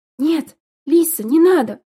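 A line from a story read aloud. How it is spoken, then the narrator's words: Exclamation. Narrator (Russian): воскликнула Эрика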